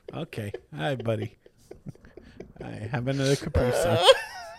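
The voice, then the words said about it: Imitates another person's voice. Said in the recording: “It's a good impression. ... It's so good.”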